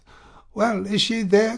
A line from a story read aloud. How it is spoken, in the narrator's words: cried Tuvache